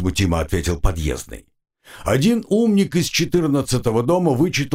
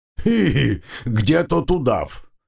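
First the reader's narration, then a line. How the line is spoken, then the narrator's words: Giggling. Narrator (Russian): хихикнул Вавило Силыч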